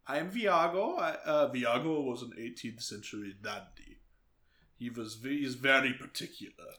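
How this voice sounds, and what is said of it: Character voice of Viago. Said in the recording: “do my Viago voice”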